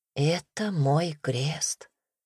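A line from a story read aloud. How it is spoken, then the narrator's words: Quiet. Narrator (Russian): тихо сказала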